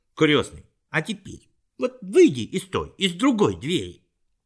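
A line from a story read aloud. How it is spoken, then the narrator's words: Impatient exclamation. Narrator (Russian): Фриц в нетерпении воскликнул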